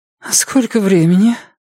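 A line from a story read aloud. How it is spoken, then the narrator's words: Sleepy question. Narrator (Russian): сонно спросила Йенни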